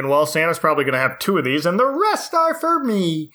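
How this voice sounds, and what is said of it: Kermit the Frog puppet voice. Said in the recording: “did a Kermit voice”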